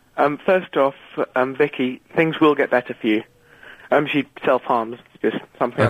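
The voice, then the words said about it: Out of breath, breathy voice. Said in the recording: “I'm a bit out of breath there ... you come back when you're a bit more less breathy”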